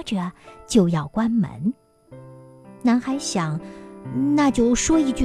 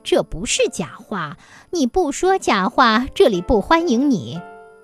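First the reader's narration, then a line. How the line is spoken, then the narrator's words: Stern, unsmiling. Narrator (Chinese): 女郎收敛了笑容，板着脸说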